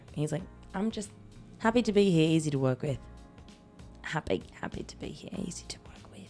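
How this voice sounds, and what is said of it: Weak attempt at a British accent. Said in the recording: “It's not a very good accent. I'm trying to pull it out of my ass... He's probably more multi-culty than he is Cockney.”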